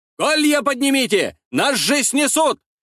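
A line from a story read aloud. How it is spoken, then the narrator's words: Warrior shouting. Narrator (Russian): закричал какой-то воин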